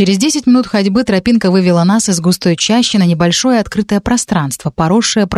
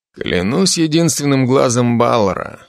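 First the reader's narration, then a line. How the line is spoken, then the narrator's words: Low mutter. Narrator (Russian): пробормотал он в полголоса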